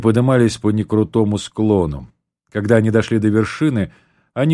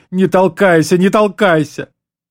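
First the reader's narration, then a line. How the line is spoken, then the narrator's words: Sobbing shout. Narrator (Russian): тот, всхлипывая, закричал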